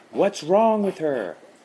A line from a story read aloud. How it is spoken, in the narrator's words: Adam asked, having to pitch his voice high above the chanting Shih Tzu